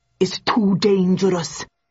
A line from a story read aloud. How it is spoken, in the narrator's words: muttered Jones